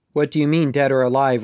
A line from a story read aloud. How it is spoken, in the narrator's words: Ridley asked